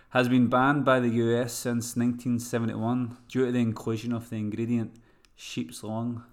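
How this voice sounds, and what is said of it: Scottish accent. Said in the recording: “Scottish haggis, what I can say proudly with my accent ... I'll just translate.”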